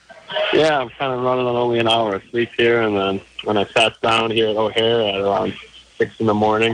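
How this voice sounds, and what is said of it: Groggy, sleepy-sounding voice. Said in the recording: “You sound a little groggy.”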